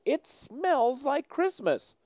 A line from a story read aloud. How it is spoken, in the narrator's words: granddaughter, age 4, giggled and yelled